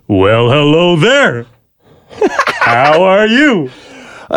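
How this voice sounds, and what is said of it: Yogi Bear impression. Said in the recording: “an impression of the number one, apparently, most recognizable voice in TV and movie animated characters. Yogi Bear. I'm going to impersonate Yogi Bear ... I think we got a little Yogi Bear.”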